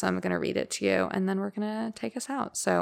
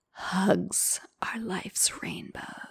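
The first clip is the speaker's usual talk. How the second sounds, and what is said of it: Sultry sexy voice. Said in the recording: “I'm going to do my best um, sexy voice.”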